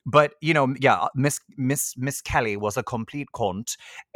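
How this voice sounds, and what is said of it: Put-on Irish County Wexford accent. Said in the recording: “I have to speak in this accent because she's from County Wexford ... I need to speak in this accent”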